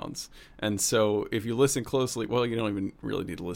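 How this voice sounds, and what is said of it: Usual voice. Nothing is said of it.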